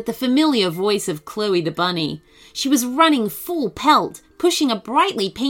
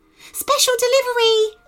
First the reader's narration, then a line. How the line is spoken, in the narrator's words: She called